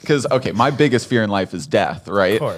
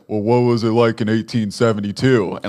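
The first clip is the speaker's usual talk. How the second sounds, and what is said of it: Impression of a friend's voice. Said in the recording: “That's a really good impression, actually.”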